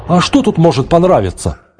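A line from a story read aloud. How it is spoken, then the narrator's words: Exclaimed. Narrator (Russian): воскликнул Архангел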